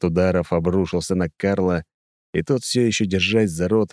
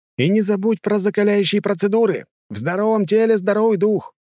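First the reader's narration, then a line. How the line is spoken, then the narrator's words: Shouting after someone. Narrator (Russian): крикнул я им вслед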